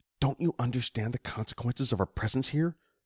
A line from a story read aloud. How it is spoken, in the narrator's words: Mei Ying whispered tersely